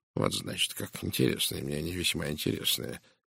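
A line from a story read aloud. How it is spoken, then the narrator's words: Quiet mutter. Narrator (Russian): тихо пробурчал Пуаро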